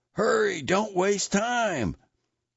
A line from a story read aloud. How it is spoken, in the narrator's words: Fukai, Father LaSalle called out